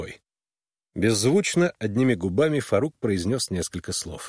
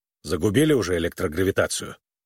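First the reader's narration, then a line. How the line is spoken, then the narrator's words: Grumbling. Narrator (Russian): он проворчал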